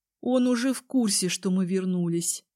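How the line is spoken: Gloomy mutter. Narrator (Russian): мрачно пробормотала я

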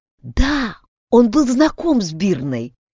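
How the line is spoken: Secretive whisper. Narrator (Russian): прошептала Вигдис, дождавшись, пока мимо стойки не пройдут два постояльца

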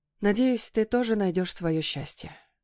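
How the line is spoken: Quiet. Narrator (Russian): тихо произношу я

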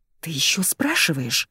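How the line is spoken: Angry hiss. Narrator (Russian): Начинаю гневно шипеть

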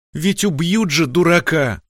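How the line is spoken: Sobbing wife. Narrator (Russian): всхлипнула супруга

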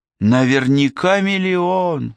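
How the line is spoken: Sighed. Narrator (Russian): вздохнул Гегурра

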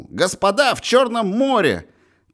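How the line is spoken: Boy shouting. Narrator (Russian): Мальчишка крикнул

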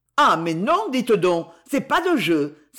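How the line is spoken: Exclaimed. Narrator (French): s'exclama Bille

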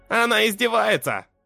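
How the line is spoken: Snorting. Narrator (Russian): Фыркнул химик

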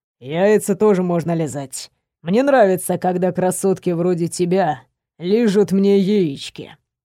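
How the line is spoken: Moaning. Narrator (Russian): простонал Артур

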